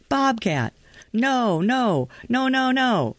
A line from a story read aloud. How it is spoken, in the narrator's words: I let out a screech before yelling